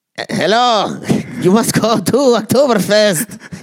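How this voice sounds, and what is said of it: Put-on German accent. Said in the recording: “I want to hear your German accent ... You want to hear my German accent?”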